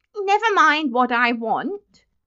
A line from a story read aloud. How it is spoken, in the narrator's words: he retorted angrily